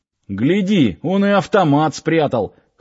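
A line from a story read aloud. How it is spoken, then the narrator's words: Short chuckle. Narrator (Russian): хохотнул кто-то еще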